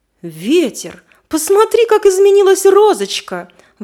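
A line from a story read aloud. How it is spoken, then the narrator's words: Exclaiming. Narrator (Russian): воскликнул дождь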